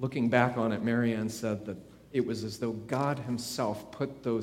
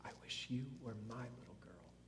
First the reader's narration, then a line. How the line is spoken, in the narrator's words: Miss Leonard ... she whispered